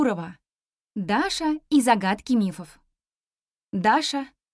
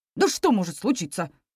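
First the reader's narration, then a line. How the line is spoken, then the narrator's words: Father's dismissive snort. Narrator (Russian): хмыкнул папа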